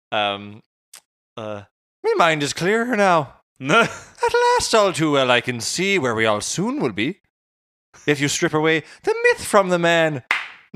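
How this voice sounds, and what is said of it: Put-on Irish accent. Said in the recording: “I was speaking with an Irish accent ... it was impeccable ... in an Irish accent”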